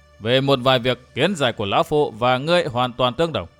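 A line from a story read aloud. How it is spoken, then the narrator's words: Loud laughter. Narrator (Vietnamese): Vạn Thế Hảo cười lớn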